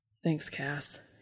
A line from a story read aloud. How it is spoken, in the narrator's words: whispered